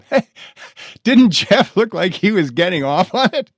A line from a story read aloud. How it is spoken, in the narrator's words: Elsa howled from the bathroom